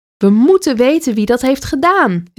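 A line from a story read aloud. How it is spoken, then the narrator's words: Chief calling out. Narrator (Dutch): riep de hoofdman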